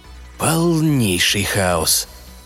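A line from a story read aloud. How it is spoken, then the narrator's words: Grumbling. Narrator (Russian): проворчал Гик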